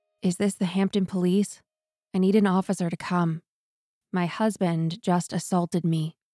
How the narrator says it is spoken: calmly said

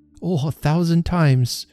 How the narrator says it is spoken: cried Trotty

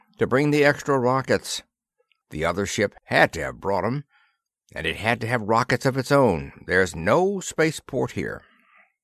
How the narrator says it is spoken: said Sergeant Madden irritably

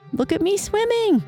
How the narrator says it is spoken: squeaked Roo

